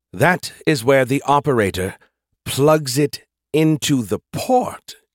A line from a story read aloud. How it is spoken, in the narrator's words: he said slowly, like he was talking to a particularly dim-witted five-year-old